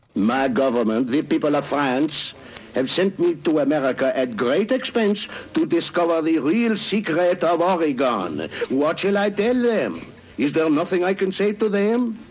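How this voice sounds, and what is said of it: Put-on foreign French-style accent. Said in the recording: “this foreign accent bit from A Man of a Thousand Voices”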